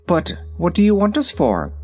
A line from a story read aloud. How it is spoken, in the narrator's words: asked the Shaggy Man uneasily